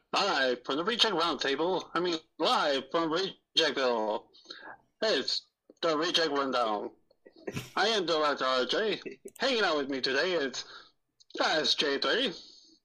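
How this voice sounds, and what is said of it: Weird made-up fake foreign accent. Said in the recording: “he's making that weird accent ... That's not even Russian. That's just a made-up fake language.”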